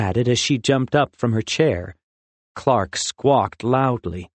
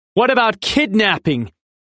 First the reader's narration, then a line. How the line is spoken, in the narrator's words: Ozzy asked loudly